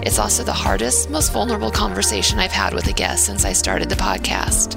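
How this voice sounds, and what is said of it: Raspy voice from a cold. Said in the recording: “excuse my raspy voice today. I'm dealing with a cold.”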